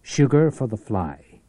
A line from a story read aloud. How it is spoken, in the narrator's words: said